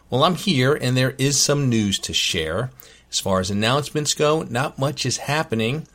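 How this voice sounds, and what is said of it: Voice slightly off from illness. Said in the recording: “I was sick ... you can probably tell that my voice isn't 100% back to normal”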